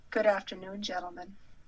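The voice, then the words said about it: Put-on sexy voice. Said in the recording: “is that your sexy voice?”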